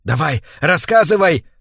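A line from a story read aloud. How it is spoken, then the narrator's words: Yelling. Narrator (Russian): вопит Биджи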